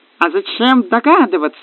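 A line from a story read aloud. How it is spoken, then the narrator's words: Exclamation. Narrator (Russian): воскликнула Кассандра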